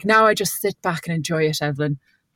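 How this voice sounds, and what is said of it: Warm Irish accent. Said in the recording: “That's an Irish accent... It's a nice warm Irish accent as well.”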